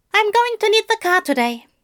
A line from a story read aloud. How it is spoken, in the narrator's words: he tells Warlock, blurting it out too quickly when it's supposed to sound assured and confident